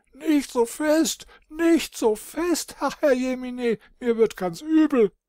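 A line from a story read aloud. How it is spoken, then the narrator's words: Shriek. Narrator (German): kreischte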